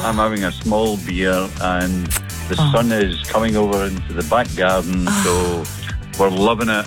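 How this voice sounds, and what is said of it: Glaswegian Scottish accent. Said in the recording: “what a lovely accent. ... Glasgow”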